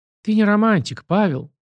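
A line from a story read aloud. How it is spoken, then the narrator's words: Sad wry chuckle. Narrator (Russian): Любовь Федоровна грустно усмехнулась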